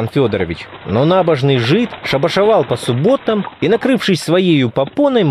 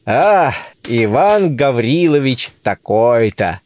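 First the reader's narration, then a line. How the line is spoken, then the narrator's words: Dull muttering to himself. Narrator (Russian): повторяет он глухо про себя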